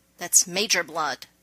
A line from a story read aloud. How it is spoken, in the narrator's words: John snapped back automatically